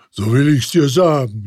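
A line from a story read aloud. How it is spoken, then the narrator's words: Ghost calling out. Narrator (German): rief der Geist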